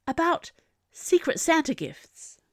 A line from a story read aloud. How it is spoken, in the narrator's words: Quentin gasped